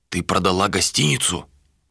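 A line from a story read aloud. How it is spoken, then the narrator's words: Whispered. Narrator (Russian): Вилар шепнул Малике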